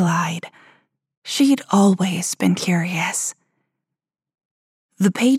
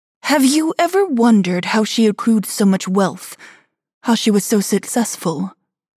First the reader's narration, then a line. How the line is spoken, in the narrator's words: Vivian asked